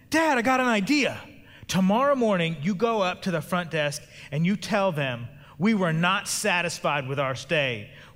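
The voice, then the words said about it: Loud excited child's voice. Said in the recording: “started talking in a real loud voice.”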